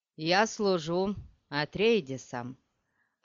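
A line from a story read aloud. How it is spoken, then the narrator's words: Formal tone. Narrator (Russian): ответил он официальным тоном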